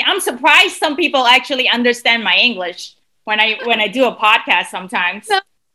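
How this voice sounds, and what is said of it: Non-native English accent. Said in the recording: “my accent sometimes. I hate it.”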